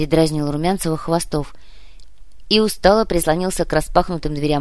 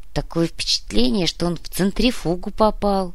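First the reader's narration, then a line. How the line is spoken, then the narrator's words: Nauseated grumble. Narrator (Russian): буркнул, пытаясь справиться с дурнотой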